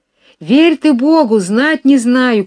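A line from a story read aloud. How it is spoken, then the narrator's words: Distant shout. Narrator (Russian): кричала арестантка с другой стороны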